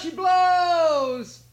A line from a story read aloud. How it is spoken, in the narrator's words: he cried